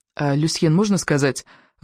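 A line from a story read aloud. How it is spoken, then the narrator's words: Timid question. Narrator (Russian): робко поинтересовался Сева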